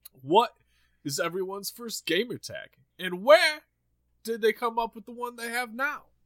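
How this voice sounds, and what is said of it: Imitates another person's voice. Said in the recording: “I could have done uh ... Christopher Walken. ... That was the worst impression I've ever. ... voice was there. ... Cadence got to work on”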